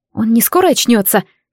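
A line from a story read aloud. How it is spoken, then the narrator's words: Frightened whisper. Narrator (Russian): с испугом прошептала я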